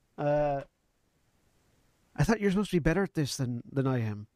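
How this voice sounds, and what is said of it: Put-on Spanish or Scottish accent. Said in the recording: “You just took my accent. ... Spanish and Scottish accents are very close. ... I'm just going to drop the accent.”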